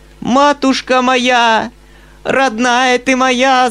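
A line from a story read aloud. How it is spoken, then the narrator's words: Shrieking. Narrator (Russian): завизжала она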